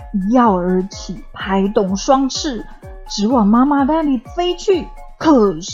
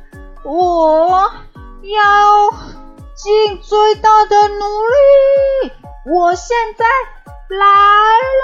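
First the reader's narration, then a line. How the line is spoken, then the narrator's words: Loud shouting. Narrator (Chinese): 悄悄高声呼喊说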